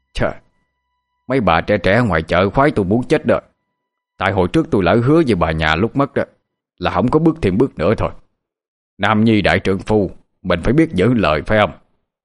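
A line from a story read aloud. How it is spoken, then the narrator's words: Loud laughing, raised voice. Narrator (Vietnamese): Ông Tám cũng cười lớn tiếng, rồi lên giọng nói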